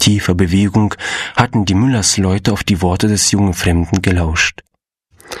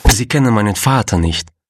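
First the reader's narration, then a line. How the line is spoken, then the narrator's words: Sad objection. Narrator (German): wandte Gustav traurig ein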